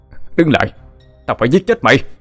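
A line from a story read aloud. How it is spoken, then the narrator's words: Shout. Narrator (Vietnamese): Anh hét lên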